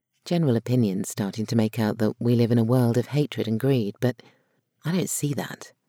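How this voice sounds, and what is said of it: Female upper-class English accent. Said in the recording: “having the female equivalent of a Hugh Grant accent”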